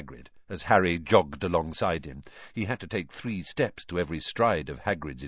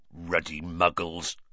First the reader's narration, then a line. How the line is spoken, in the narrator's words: growled Hagrid